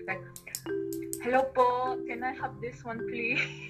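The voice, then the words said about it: Heavy put-on Filipino accent. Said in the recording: “talk with a heavy Filipino accent”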